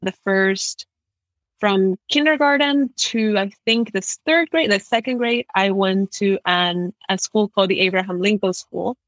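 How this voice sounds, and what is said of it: American accent. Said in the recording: “I have an American accent,”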